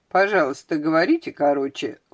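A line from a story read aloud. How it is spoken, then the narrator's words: Cold male voice. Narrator (Russian): холодно сказал он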